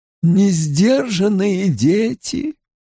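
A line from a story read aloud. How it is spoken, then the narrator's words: Sighing. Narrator (Russian): вздохнула Вэрин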